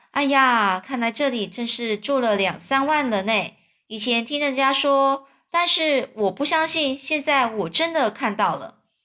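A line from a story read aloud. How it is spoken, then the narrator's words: Admiring exclamation. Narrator (Chinese): 哈克不禁赞叹说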